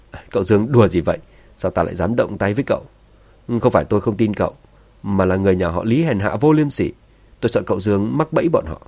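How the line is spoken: Laughing. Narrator (Vietnamese): Thượng quan hoàng cười phá lên, cười nói

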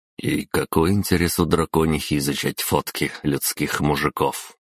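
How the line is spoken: Inner mutter. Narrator (Russian): мысленно пробормотал я

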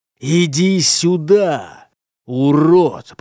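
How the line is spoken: Strained hiss. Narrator (Russian): прошипел он в сторону Альфреда с натугом

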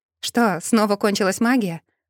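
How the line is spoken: Snorting. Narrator (Russian): хмыкнула я

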